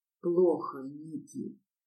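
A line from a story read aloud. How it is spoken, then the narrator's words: Breathed out close. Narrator (Russian): выдохнул Риман у моего рта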